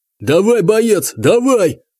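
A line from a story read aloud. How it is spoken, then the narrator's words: Yelling. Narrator (Russian): орал кто-то из кладбищенских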